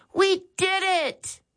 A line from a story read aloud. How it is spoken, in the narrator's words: Max exclaimed